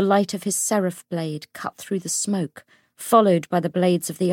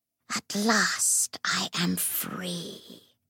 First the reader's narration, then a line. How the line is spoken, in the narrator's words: it hissed